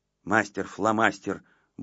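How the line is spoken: Grumbled. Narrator (Russian): буркнула Воська

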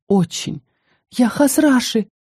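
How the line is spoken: Quiet babbling. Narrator (Russian): полепетала тихо

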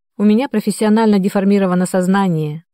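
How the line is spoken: Wry snort. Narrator (Russian): хмыкнул Андрей

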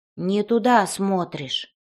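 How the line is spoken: Grumbling. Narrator (Russian): проворчал голос

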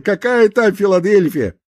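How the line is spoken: Cheerful. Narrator (Russian): радостно сказал практикант

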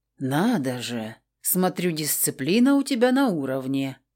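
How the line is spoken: Very quiet, sarcastic. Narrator (Russian): очень тихо съязвил Крор

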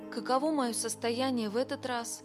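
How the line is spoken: Plain question. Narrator (Russian): спросил Билл

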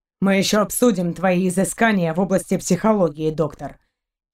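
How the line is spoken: Angry retort. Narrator (Russian): кинул ему сердито Шейн

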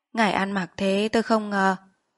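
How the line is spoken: Soft. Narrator (Vietnamese): Bác nói khẽ

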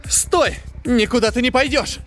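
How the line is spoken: Desperate shout. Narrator (Russian): вдруг в отчаянии крикнула Линда

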